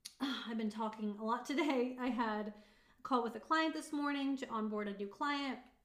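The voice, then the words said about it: Strained, fading voice. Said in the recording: “I'm like losing my voice.”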